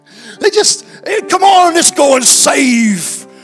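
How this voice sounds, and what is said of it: Silly put-on accent. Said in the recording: “I don't know why I went into a silly accent then.”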